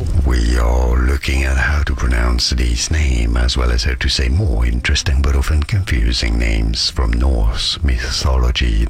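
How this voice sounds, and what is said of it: Deep Scandinavian-accented close-mic voice. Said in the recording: “Scandinavian public radio voice of the century. Like, he's got a Scandinavian accent ... you can hear the spit in his mouth and the way he speaks ... it sounds like he's trying to make his voice as deep as he possibly can”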